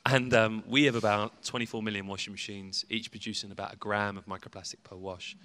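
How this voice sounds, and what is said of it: British English accent. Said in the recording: “as you can tell via my accent, I'm from the UK.”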